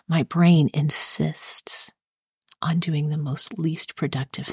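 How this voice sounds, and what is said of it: Soft whispery ASMR-style voice. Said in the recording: “ASMR voice”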